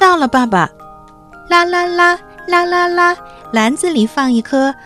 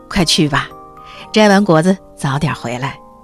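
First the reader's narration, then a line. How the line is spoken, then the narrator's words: Father rabbit, smiling. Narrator (Chinese): 兔爸爸笑了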